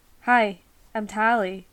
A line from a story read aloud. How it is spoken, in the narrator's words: said